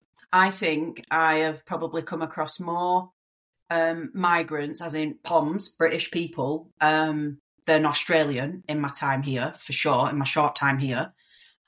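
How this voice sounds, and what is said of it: Strong accent. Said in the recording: “obviously you have quite a strong accent.”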